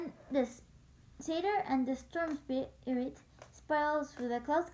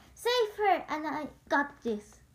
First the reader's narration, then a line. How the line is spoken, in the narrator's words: Coach shouted once more